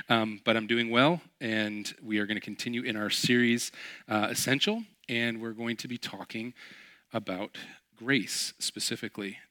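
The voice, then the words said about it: Raspy voice. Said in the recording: “my voice is a little raspy. It's because I have a head cold”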